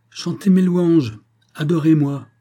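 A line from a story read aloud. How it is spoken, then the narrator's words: Exclaiming. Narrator (French): s'écria-t-il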